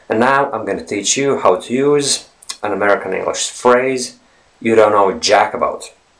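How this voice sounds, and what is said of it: Decent learned American accent. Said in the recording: “I've been learning to speak with an American accent. And as you can hear, I'm quite good at it ... I speak with a decent American accent.”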